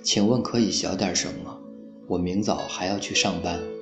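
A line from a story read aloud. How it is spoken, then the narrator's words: Resigned, soft. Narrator (Chinese): 他无奈之下轻声说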